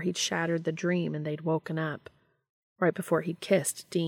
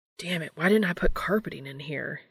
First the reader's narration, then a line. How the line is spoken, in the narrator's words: he muttered